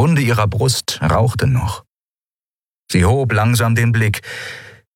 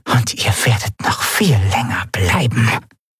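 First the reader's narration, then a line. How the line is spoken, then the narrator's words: Whisper from a corner. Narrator (German): wisperte eine Stimme in der Ecke des Raumes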